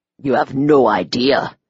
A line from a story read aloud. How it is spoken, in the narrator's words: he growled